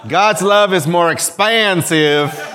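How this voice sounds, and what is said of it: Poor put-on Texan accent. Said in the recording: “That's a Bostonian trying to do a Texan accent. ... It was not good. It was an offense.”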